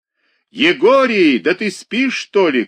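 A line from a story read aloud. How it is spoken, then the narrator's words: Shouted from below. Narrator (Russian): крикнул внизу Пантелей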